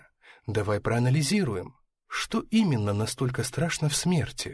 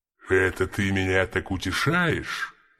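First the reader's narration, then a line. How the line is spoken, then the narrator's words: Growling. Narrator (Russian): прорычал Мергеш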